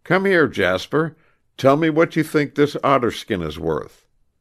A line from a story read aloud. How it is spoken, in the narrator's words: Grant called out